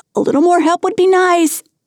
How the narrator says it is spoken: Akagi shouted

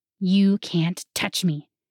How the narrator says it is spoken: he hissed

